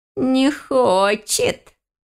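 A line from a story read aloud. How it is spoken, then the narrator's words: Thin giggling voice. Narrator (Russian): хихикнул тонкий голосок сверху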